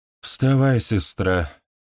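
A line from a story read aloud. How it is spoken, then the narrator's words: Sighing. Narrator (Russian): вздохнула Танитагра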